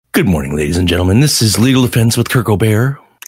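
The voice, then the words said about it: Subtle, downplayed mellow radio announcer voice. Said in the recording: “an alternative announcer voice, which I liked very much. It was a little more subtle, downplayed ... I went from the morning drive to NPR voice ... more like the afternoon slow rock, or maybe like mellow rock station”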